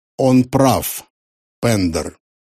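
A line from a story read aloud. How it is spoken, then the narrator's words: Cold. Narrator (Russian): холодно сказал Мартин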